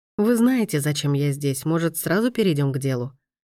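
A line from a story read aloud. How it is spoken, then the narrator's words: Forced calm question. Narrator (Russian): спросил Райна как можно более спокойно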